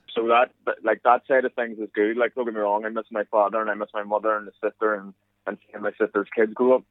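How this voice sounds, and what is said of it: Irish accent. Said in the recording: “I still have that culture of Irishness around me... hopefully, as you can tell through my accent, it hasn't changed much”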